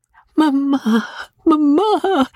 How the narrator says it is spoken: cried the bewildered girl

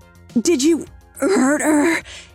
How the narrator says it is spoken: he moaned

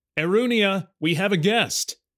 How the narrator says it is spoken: he called out

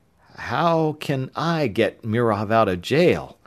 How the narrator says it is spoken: Tom faltered

